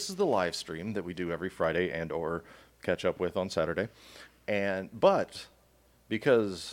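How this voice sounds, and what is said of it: Usual voice. Nothing is said of it.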